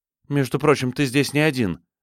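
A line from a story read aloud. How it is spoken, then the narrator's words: Clipped. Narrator (Russian): отрывисто сказала Хейзел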